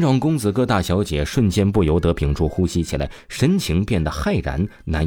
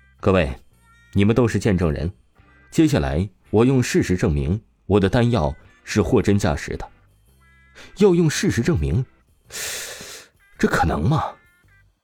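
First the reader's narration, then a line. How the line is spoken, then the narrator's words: Calm, indifferent. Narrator (Chinese): 王峰又是淡淡说道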